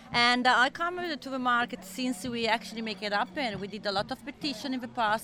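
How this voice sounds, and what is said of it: Noticeable foreign accent in English. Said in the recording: “I know my accent, it doesn't show, but I'm Australian”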